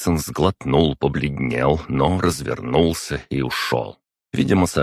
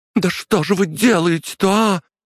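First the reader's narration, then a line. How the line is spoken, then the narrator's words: Shouted. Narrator (Russian): закричала она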